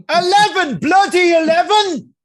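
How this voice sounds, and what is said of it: Imitated Scottish accent. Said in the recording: “not for the Scottish uh, accent ... the elevator would never be able to understand the Scottish accent.”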